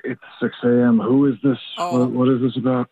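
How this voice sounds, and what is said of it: Sleepy, just-woken voice. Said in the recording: “You sound sleepy. ... I am sleepy.”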